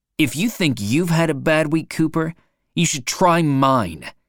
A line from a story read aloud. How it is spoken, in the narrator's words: says angrily